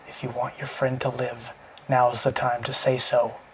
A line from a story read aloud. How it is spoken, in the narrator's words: Marshall whispered